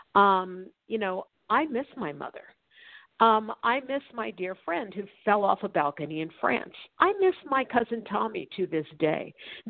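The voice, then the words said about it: Choked-up, emotional voice. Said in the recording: “I get choked up, as I am right now when I'm talking about those I love who have passed”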